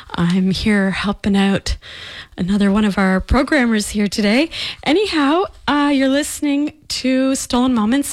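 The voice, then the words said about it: Out of breath, panting speech. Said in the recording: “Sorry, I'm out of breath. I ran back into the studio.”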